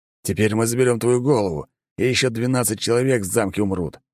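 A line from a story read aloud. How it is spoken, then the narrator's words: Growling. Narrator (Russian): прорычал он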